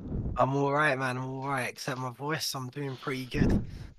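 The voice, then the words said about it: Hoarse, nearly lost voice. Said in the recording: “nearly no-voiced ... that is not a man with horrible laryngitis”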